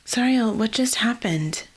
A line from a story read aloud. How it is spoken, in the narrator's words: Genevieve asked